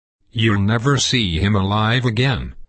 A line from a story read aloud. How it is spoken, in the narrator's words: said the doctor